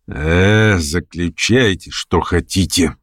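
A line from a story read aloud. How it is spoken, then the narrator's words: Tired, disdainful. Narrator (Russian): ответил он усталым и брезгливым голосом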